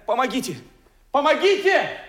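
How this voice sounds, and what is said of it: Shouting. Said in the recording (Russian): “не кричите”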